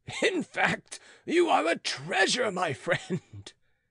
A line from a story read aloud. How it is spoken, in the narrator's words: replied the yeoman, bursting into laughter